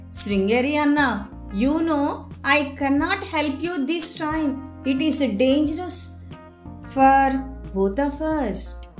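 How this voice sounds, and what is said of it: Kind, gentle voice. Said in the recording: “In a kind voice”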